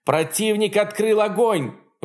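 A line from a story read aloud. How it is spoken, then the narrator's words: Shouted. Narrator (Russian): выкрикнул тактик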